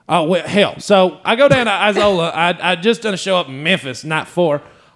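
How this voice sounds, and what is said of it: Put-on Southern country accent. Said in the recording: “I feel like you have to say this whole thing in the accent.”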